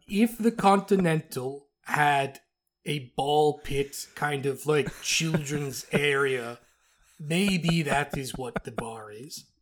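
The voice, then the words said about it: Character accent, drifting Russian. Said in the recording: “This is also how Uthbear sounded... It was hard to keep this accent up... Sometimes it got pretty Russian... it got pretty Russian at times”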